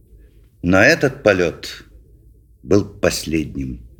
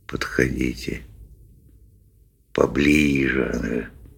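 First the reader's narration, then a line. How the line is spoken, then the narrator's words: Quiet coaxing. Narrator (Russian): тихонько подзадаривал он рыб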